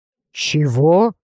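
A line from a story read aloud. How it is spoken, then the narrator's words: Surprised breathless gasp. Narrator (Russian): удивленно выдохнули у меня за спиной, когда шар, мгновение назад опалявший мне лицо, вдруг испарился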